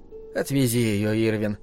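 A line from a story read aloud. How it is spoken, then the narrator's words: Quiet in silence. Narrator (Russian): сказала тихо Дори в наступившем молчании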